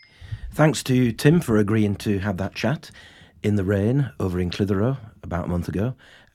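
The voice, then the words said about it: Croaky voice. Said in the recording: “I had a cold at the time ... I've got another cold. That's why I sound so croaky.”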